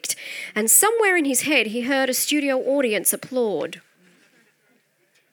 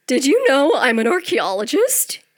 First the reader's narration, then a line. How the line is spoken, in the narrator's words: he asked in his cracked voice